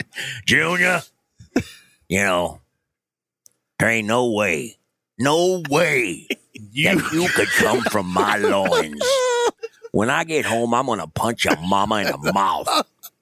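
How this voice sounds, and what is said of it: Imitates a movie character's voice. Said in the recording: “That was a good imitation.”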